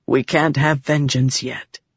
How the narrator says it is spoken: Helleran said softly

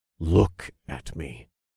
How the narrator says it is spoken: I said with a grunt

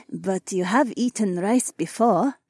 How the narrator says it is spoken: Haewon giggled

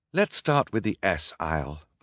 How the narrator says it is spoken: Violet said

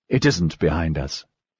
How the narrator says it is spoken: said softly

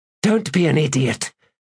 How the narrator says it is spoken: Kedavis snapped

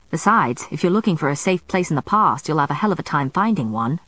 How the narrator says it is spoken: Marcus grumbled

